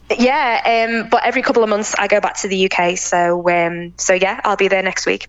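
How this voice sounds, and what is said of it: English accent, Liverpool-born speaker. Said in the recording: “I am English, obviously, by my accent. I was born in Liverpool”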